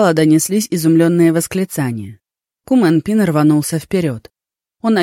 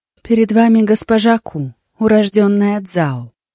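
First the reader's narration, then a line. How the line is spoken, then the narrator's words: Soft voice. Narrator (Russian): Мягким голосом проговорила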